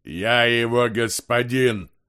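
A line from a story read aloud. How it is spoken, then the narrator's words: Sudden deep muffled voice. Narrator (Russian): Неожиданно пробасил Бальдандерс из-под толстого слоя бинтов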